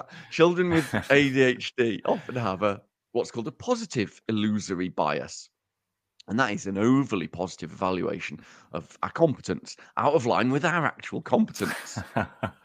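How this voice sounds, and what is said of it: Uttoxeter English Midlands accent. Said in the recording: “my stupid Uttoxeter accent”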